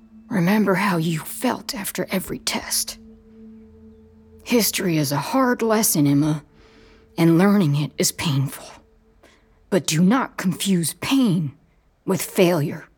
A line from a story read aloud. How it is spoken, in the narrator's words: whispers